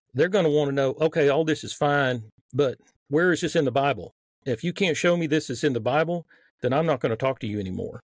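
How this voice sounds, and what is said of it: Mild Southern American accent. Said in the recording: “my Southern accent, which is on a little bit right now”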